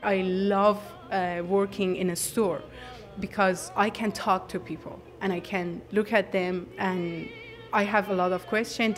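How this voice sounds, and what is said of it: Iranian-accented English. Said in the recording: “when they hear my accent and when they find out I'm from Iran, I'm from Tehran”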